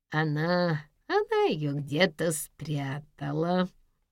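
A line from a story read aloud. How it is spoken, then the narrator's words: Reluctant nasal admission. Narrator (Russian): неохотно признался гнусавый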